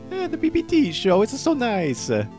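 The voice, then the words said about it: High-pitched Mario character voice. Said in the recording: “your best Mario impersonation ... make my voice sound high”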